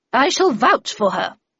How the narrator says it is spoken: said Miss Havisham in a thunderous tone

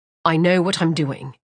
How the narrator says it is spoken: Emery said

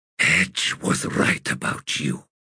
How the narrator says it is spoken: he whispered

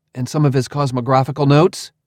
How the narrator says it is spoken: I pleaded

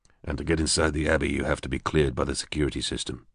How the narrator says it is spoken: Greg murmured

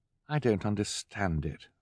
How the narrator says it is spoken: Violet said miserably

